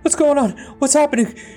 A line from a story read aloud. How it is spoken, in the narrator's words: he asked in a shrill and panicked voice